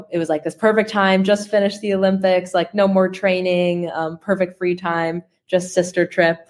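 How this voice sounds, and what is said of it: Non-British accent from further away. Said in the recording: “your accent sounds like it's from slightly further away”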